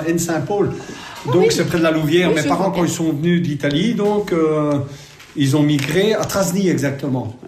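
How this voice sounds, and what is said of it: Typical Carolo Belgian accent. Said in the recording (French): “un accent typique. ... Carolo, peut-être.”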